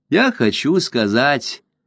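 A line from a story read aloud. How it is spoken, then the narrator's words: Continuing to speak. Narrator (Russian): продолжал Дюпен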